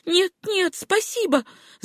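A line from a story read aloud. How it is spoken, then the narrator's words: Timid babbling. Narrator (Russian): залепетала Сюзанна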